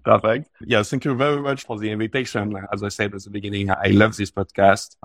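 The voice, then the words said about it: Strong French accent. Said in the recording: “my strong French accent”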